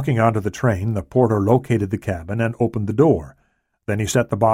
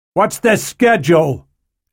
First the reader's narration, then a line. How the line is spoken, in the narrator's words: Hanley shouted to Stone